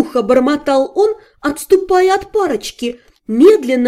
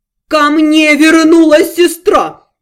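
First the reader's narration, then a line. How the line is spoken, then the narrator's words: Pathetic wailing howl. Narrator (Russian): патетично взвыл Карояр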